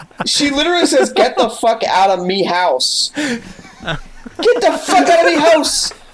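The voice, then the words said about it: Put-on Irish accent. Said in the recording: “The one girl suddenly develops an Irish accent.”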